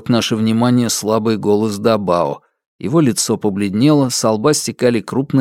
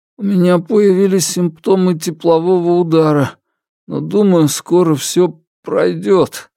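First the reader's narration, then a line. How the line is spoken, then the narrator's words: Strained, forced out. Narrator (Russian): выдавил Дабао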